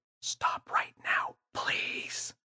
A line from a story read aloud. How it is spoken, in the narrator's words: James shook his head frantically and whispered